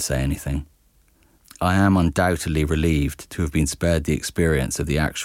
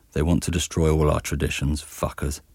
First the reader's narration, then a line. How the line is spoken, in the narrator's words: adds in a mutter